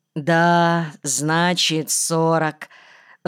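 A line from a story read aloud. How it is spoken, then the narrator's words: Sigh. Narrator (Russian): вздохнул Кирка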